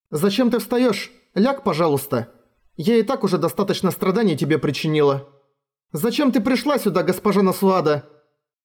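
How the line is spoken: Sharp questioning tone. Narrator (Russian): тем же резким тоном спросила Катрина

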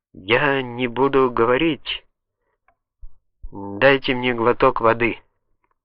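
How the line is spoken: Barely audible. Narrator (Russian): Наконец, едва слышно, он произнес

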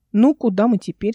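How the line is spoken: Plain. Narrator (Russian): спросил Эл

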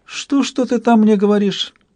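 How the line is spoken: Deceptively sugary voice. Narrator (Russian): осведомилось изваяние обманчиво приторным голосом

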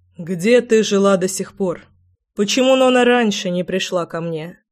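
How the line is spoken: Calm speech. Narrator (Russian): спокойно говорил Заверин

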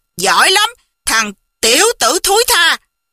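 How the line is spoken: Loud roar. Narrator (Vietnamese): Hầu Thông Hải gầm lớn một tiếng

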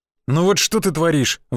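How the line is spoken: Sighing. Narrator (Russian): вздохнул я

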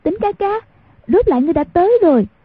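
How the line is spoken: Joyful and fearful cry. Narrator (Vietnamese): mừng sợ xen lẫn, chạy tới nắm hai tay y kêu lên

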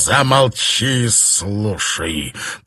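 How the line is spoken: Hissing. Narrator (Russian): прошипел Кросс

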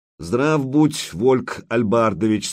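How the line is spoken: Plain. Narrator (Russian): сказал он

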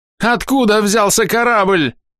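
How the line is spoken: Yelled. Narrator (Russian): заорал на него Корнет

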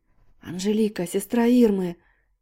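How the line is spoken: Whispered exclamation. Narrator (Russian): шепотом воскликнула Полина

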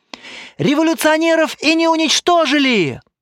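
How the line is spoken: Shouting. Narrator (Russian): кричал третий

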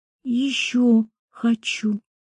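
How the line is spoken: Barely audible whisper. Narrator (Russian): я прошептал еле слышно

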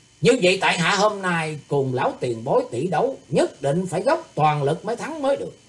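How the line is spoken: Proud loud declaration. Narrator (Vietnamese): Thủy tướng Hạo đỉnh lập, ưỡn ngực, lớn tiếng vẻ hiền ngang nói

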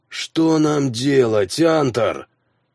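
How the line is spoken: Moaned. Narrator (Russian): простонал Хроки

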